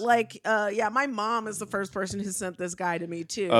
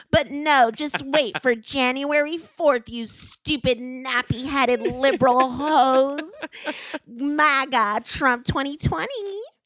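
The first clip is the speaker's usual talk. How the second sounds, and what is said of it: Imitates another person's voice. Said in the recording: “pretty good impression”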